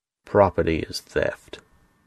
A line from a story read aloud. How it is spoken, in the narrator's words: sneered